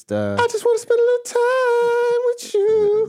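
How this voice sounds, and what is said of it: Singing in falsetto. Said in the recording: “Your falsetto. You've been doing a lot of falsetto today.”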